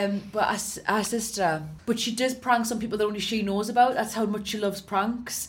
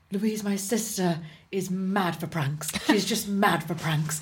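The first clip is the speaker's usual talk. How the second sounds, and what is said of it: Impression of an acquaintance. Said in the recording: “really good impression ... that's a good impression”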